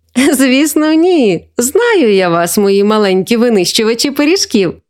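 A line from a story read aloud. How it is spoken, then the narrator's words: Laughing, grandmother. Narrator (Ukrainian): засміялася бабуся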